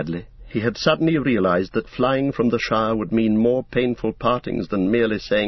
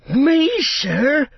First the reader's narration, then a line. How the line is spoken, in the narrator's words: cried Sam, springing up like a dog invited for a walk